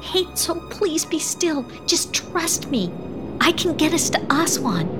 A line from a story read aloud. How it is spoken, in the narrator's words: Catty whispered again